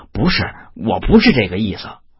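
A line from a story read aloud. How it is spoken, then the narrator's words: Hurried. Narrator (Chinese): 韩生急忙说道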